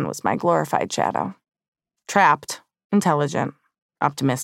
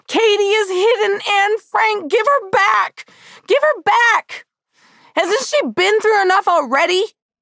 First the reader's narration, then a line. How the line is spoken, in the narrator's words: screaming